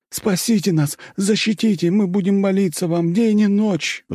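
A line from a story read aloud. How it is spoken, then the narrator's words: Pleading crowd. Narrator (Russian): взмолились люди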